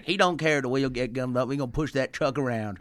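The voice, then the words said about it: Put-on Southern American accent. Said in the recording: “That sounded vaguely like Southern logic ... That's my Southern accent.”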